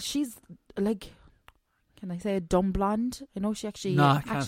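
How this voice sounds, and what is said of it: Put-on Welsh accent. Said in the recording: “I don't know what accent that was. Was it a Welsh accent you just went into there?”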